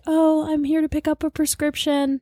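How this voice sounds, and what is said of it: Dainty, overly sweet princess-like voice. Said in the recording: “You sound like a princess. ... I could barely talk.”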